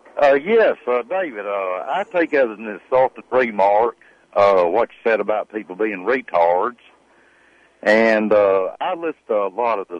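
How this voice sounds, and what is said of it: Southern US accent, possibly exaggerated. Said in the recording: “the way you say that word retard ... It sounds to me like he's putting on that accent ... the accent's fake ... I'm from the South ... I'm from Alabama”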